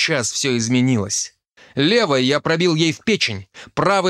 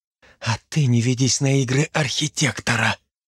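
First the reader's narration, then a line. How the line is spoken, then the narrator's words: Strained hoarse wheeze. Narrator (Russian): через силу прохрипела Ребекка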